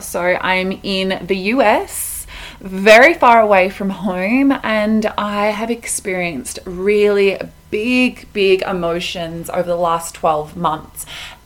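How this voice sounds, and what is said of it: Australian accent. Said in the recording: “my accent might give this away. I'm Australian, I'm from Melbourne”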